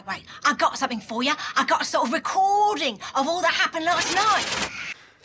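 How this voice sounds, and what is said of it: Put-on Cockney accent. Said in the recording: “She does a pretty good Cockney accent. ... she decided to go for sort of a Cockney accent”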